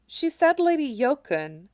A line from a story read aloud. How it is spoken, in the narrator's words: Aerith murmured, eyes wide